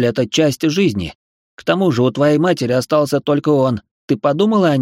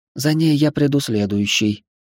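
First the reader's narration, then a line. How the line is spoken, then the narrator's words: Soft, smiling. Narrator (Russian): мягко улыбнулась Элла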